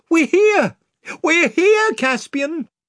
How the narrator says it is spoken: cried Lucy and Edmund together

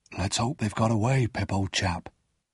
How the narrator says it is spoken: Joe whispered back

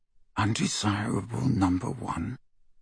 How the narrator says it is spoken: Harry muttered under his breath

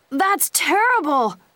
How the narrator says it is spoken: Dawson shouted

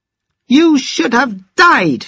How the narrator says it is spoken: she shouted

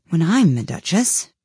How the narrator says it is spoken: she said to herself, not in a very hopeful tone, though,

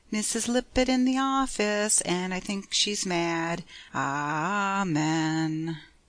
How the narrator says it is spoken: Tommy piously intoned, but his accent was not entirely malicious

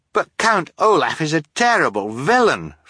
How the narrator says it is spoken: Fiona cried

